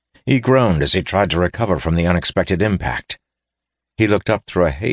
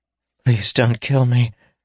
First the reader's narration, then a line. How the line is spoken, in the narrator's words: gasped Deschelles